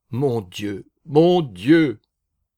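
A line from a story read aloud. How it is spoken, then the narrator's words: Sobbing cry. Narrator (French): s'écria-t-il dans un sanglot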